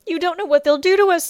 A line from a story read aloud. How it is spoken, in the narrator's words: Circe sobbed